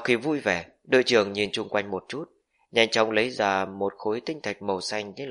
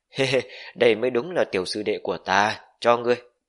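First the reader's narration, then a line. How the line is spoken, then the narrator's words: Delighted loud laughter. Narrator (Vietnamese): Đội trưởng mặt mày hớn hở, cười lớn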